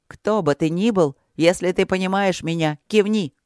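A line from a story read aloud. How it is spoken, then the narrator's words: Booming female shout. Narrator (Russian): одна охранница с сиреницкими капитанскими знаками отличия зычно крикнула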